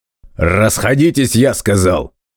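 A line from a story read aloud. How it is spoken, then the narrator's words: Adult barking angrily. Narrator (Russian): Снова рявкнул воспитатель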